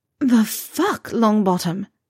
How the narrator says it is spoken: she gasped

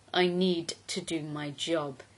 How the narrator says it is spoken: he growled

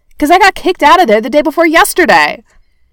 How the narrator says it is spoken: Barney shouted

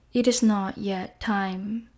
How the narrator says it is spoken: The earth whispers

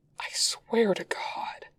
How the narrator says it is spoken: Wei Ying whispers again, practically vibrating out of his skin

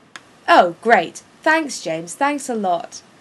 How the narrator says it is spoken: Sirius yells to James's back

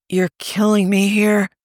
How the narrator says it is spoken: Tony moaned

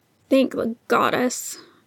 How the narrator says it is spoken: Neil grumbled

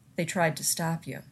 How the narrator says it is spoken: Ronan said thickly

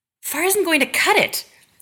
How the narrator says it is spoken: insists

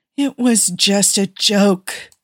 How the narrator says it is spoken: Steve whined

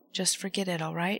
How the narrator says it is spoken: Sam murmured against his temple

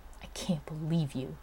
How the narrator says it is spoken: Kusanagi had hissed at him

